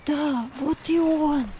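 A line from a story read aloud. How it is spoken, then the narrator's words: Child's voice dropping to whisper. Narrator (Russian): Голос ребенка перешел в шепот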